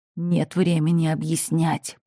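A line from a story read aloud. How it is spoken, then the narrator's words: Growl in face. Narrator (Russian): прорычал он прямо мне в лицо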